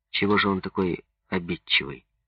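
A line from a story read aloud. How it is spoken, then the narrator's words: Plain question. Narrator (Russian): спросил Минин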